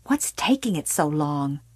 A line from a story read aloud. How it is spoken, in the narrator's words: hissed